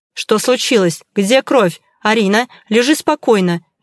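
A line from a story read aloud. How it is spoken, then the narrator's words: Sharp, curt. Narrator (Russian): Резко бросил он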